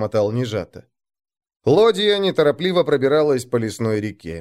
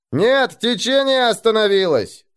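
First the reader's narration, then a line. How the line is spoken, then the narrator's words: Distant shout. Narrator (Russian): крикнули с носа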